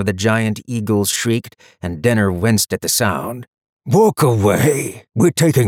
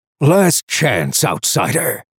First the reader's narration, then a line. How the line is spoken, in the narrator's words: the Halliot traveler roared from overhead